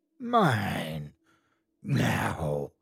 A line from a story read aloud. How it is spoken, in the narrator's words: A voice rasped in my ear